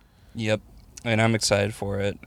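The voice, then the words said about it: Flat monotone delivery. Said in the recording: “I can tell you're excited by the monotone that you just delivered.”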